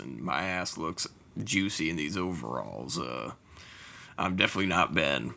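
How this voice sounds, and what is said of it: Put-on sexy voice. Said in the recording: “sexy voice haver”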